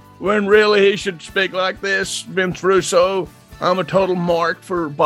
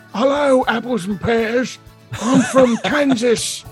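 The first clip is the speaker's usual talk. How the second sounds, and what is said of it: Mock English accent. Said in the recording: “accent of the what do you call him, the Bill Clinton, because they hired an English guy. So his accent sounds like”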